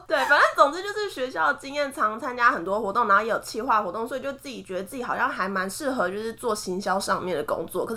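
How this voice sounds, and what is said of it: Hakka-accented Mandarin, not standard pronunciation. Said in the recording (Chinese): “其实我就真的就是没有办法那个字正腔圆的讲话……你知道客家人口音”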